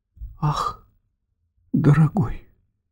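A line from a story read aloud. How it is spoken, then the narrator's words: Sighing. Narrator (Russian): вздохнула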